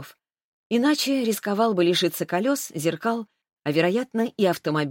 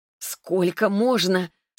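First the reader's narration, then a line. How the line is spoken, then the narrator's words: Trembling question. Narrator (Russian): спросила я дрожащим голосом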